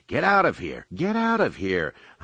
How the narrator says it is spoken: Han cried through all channels

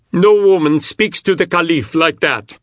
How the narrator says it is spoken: shouted a man

